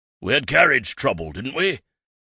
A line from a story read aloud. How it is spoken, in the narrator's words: bellowed